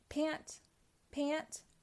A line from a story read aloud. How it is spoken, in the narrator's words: gasped baby Pac-Man, who was getting very tired